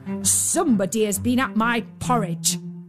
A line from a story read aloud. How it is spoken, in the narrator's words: said the great huge bear in his great gruff voice